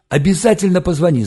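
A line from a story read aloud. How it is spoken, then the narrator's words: Yell. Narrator (Russian): заорал Валька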